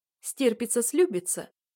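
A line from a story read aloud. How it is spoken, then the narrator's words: Tearful answer. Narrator (Russian): отвечаю сквозь слезы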